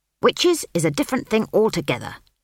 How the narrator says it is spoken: snapped Granny Weatherwax

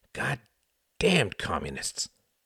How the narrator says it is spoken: muttered the cab driver

